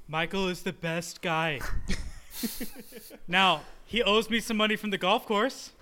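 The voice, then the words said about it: Imitates another person's voice. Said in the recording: “This is a terrible impression. I'm much better than this. ... Awful. ... It's the headphones.”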